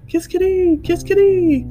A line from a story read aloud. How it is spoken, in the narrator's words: A pair of yellow-bellied birds called out